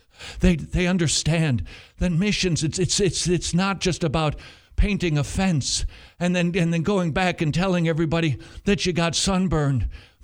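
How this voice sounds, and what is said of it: Imitates another person's voice. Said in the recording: “That's my impression... That was pretty good... Paul Washer.”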